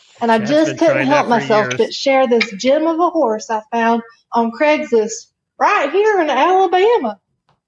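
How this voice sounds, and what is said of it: Exaggerated Southern drawl. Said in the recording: “bring my southern drawl on ... I'm going to try real hard”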